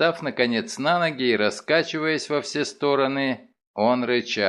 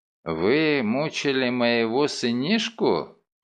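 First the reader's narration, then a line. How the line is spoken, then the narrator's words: Sleepy butcher asking. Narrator (Russian): спросил мясник заспанным голосом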